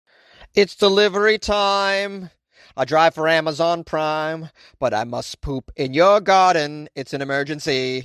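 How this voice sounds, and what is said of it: Sung imitation of another person's voice. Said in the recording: “My Ringo impression?... No, that's not a very good Ringo impersonation.”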